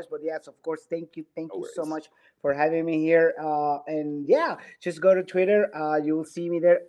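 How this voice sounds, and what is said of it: Hoarse, fading voice. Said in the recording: “My voice was like almost disappearing after that goal... I apologize for my voice.”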